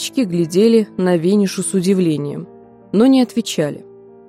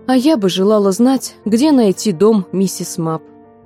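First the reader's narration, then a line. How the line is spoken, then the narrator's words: Plain. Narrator (Russian): сказала Виниша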